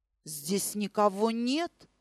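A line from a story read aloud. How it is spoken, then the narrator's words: Muttered. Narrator (Russian): пробормотал он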